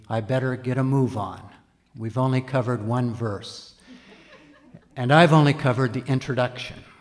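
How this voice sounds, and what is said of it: Impression of another pastor's voice. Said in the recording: “a Pastor Bob impersonation”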